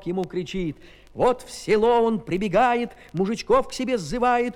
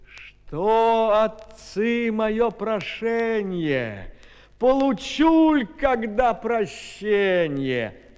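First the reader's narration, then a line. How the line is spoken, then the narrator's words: Sighing giant whale. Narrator (Russian): Чудо-юдо, рыба-кит, так вздохнувши, говорит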